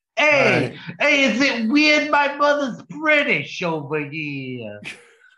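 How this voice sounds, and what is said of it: Pinky Tuscadero character voice. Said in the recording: “do my Pinky Tuscadero voice”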